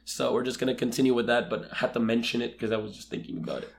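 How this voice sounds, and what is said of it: Sick, under-the-weather voice. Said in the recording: “The listeners, the viewers may very clearly already notice that my voice is a little bit under the weather.”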